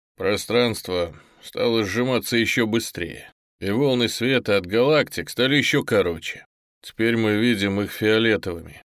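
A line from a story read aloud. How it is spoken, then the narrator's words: Plain. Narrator (Russian): ответил Облаков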